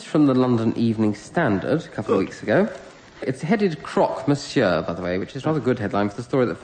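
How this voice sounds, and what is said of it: Usual voice. Nothing is said of it.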